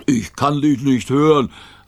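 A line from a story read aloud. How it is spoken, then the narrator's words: Call. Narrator (German): rief Rover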